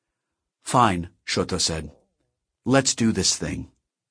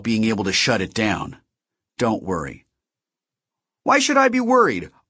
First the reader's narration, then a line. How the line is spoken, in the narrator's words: Artemis snapped